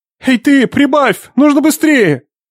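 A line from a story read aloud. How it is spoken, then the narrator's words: Shout. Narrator (Russian): крикнул он вознице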